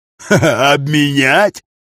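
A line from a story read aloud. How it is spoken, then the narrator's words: Short angry laugh. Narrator (Russian): Названный Дарсом коротко и зло хохотнул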